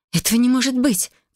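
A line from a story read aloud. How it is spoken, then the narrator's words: Breathless gasp. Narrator (Russian): выдохнула я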